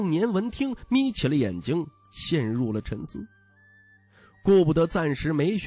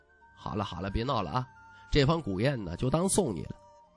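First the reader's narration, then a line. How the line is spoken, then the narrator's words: Soft. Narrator (Chinese): 徐凤年 轻声道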